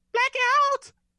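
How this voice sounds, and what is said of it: Yelled in falsetto. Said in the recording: “in his finest. Falsetto.”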